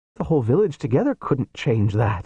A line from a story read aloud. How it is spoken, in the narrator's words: said, and laughed